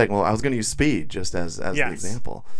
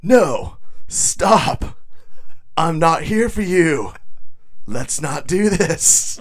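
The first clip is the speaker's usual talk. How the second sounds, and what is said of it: Keanu Reeves impression. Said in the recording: “do a quick Keanu Reeves impression ... That was a really good one.”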